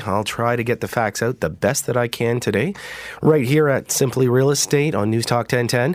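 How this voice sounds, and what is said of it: Voice sounds different, sick. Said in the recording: “if my voice sounds a little bit different, well, sorry, but I think I've got the station cold going around”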